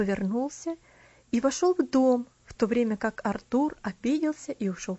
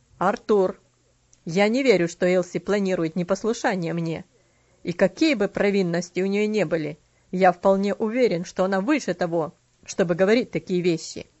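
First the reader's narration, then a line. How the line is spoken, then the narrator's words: Stern voice. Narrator (Russian): ответил мистер Динсмор строгим голосом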